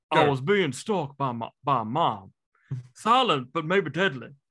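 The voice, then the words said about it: Mix of many put-on accents. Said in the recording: “No idea what accent that was, but it was amazing... it was all the accents... It was all the accents combined... I was taking a walk around the south of America.”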